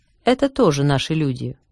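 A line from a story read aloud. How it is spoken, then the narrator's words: Calm old woman objecting. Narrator (Russian): спокойно возразила старуха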